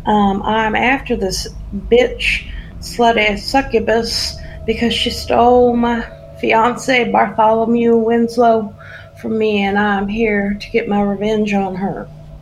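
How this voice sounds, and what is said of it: Put-on southern accent. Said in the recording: “sometimes loses her southern accent when she goes a little bit too crazy”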